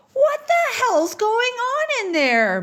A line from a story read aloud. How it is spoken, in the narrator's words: Gig screams